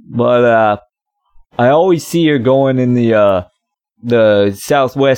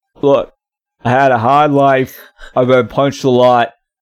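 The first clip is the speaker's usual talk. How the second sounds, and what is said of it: Put-on mumbled Boston accent. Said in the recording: “doing a Boston accent of someone that was, like, punched in the mouth ... this Boston accent, and it's not working”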